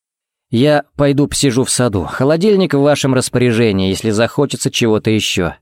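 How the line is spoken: Plain. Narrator (Russian): сказал он

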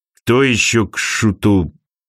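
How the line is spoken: Muttered. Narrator (Russian): пробормотал Архангел

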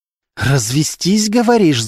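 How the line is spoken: Hissed, female. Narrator (Russian): зашипела Полина

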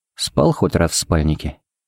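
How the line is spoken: Quiet question. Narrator (Russian): поинтересовался Харин негромко

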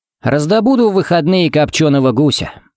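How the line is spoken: Plain. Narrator (Russian): сказал

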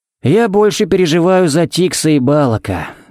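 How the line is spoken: Sighing. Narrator (Russian): вздохнул Харри

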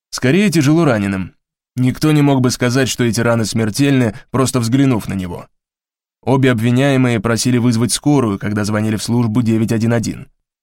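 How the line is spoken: Formal official tone. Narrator (Russian): официальным тоном ответствовал Сомс

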